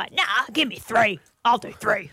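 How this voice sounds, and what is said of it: Imitates another person's voice. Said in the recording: “Uncanny impersonation”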